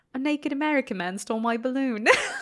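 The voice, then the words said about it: Bad put-on British child accent. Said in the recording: “apologies for my bad accent ... he's just this little tiny British boy”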